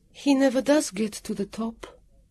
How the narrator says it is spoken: Ingerlee said anxiously

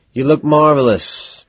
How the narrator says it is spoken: I sigh

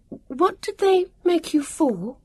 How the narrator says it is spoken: Vivian asked rather desperately

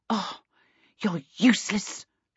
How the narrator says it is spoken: Charmaine snarled back

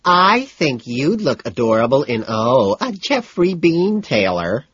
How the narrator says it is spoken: I whine in a high, faggy voice

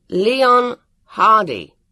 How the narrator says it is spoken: he said loudly

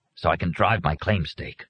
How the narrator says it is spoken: Arnie muttered

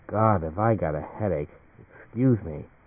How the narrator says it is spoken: To himself, he muttered

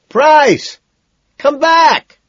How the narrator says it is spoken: I yell

